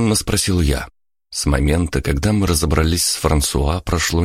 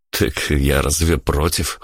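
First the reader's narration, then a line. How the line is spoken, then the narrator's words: Snorting. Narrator (Russian): хмыкнул я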